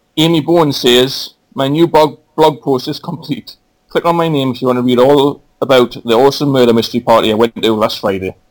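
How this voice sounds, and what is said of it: Noticeable accent. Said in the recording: “they love your accent”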